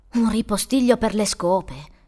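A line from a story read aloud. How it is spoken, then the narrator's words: Incredulous exclamation. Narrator (Italian): esclamò incredulo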